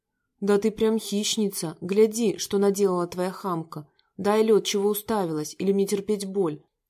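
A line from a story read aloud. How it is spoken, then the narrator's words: Menacing tone. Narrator (Russian): Грозно выдал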